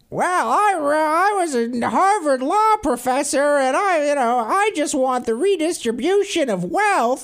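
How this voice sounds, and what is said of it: Elizabeth Warren impression, screechy voice. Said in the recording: “your Elizabeth Warren voice. It's a different screech than Hillary ... there's a faint Midwestern twang, but it's mostly just her unpleasant screech”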